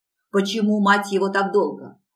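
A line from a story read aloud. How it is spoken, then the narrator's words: Male growl. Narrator (Russian): зарычал он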